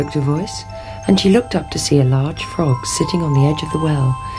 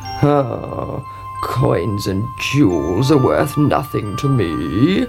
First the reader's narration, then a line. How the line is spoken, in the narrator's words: croaked the frog